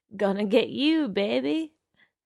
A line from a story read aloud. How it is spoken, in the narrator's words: laughed and said